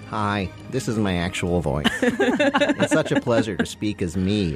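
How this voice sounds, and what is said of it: Imitates a public radio host voice. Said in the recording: “that sounds like a lot of other people's public radio voice ... That was actually my Ira Glass impression”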